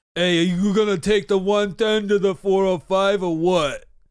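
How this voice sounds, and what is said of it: Put-on classic California accent. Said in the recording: “the California accent. ... that classic California accent.”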